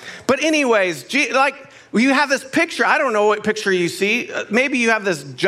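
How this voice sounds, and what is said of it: Usual voice. Nothing is said of it.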